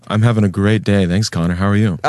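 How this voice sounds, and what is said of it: Polished radio announcer voice. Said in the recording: “radio voice ... You sound very good on that microphone ... this radio voice is something else”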